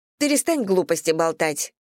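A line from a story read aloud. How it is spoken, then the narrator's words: Sharp shout. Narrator (Russian): прикрикнула на него Марина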